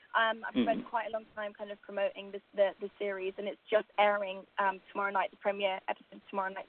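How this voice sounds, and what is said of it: Tired-sounding voice. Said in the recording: “as you can tell by my voice, I'm fairly tired.”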